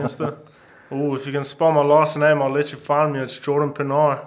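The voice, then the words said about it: South African accent. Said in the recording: “who was the South African kid? ... Girls love an accent. I bet you get a lot of play with that accent. ... the South African Matt Rife”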